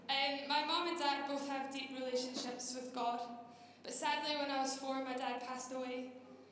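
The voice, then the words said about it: Scottish accent, Glasgow. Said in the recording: “I grew up just outside Glasgow, you can probably tell by my strong accent. It has softened, by the way.”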